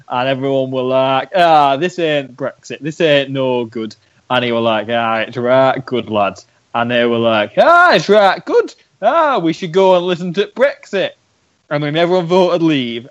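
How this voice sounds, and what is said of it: Exaggerated Northern English man's voice. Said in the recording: “That was my James impression. It's not very good. And it sort of just became Northern Man.”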